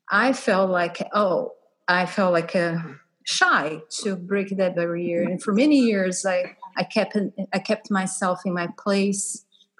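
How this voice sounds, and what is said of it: Strong foreign accent. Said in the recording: “I speak differently, and I have a strong accent”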